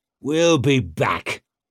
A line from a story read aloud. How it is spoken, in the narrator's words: he barked out